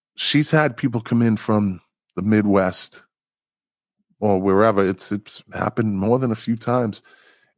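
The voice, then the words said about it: Boston accent. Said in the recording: “My Boston accent, you're going to have to get used to that.”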